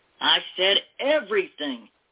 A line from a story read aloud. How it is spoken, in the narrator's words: he barked when the matronly lady failed to hand over her earrings